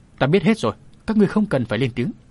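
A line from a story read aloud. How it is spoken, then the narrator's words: Benevolent, smiling. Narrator (Vietnamese): Mỉm cười độ lượng, Bạch nhị tiên sinh nói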